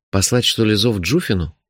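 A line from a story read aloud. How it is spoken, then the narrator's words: Uncertain suggestion. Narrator (Russian): неуверенно предложил я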